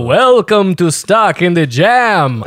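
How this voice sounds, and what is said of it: Spooky vampire count character voice. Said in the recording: “I put on a voice ... I did this show as Count Bugula ... I did a voice for that”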